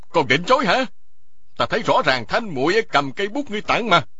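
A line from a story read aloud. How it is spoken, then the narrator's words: Loud barking shout. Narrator (Vietnamese): Y quát to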